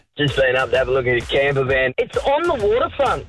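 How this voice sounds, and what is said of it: Mother putting on her son's voice. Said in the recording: “putting on a voice ... My son, Seth. ... It's all”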